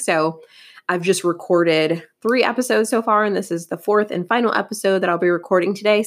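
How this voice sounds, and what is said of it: Scratchy, crackly tired voice. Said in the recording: “my voice is a little bit scratchy ... my voice is starting to sound a little bit crackly”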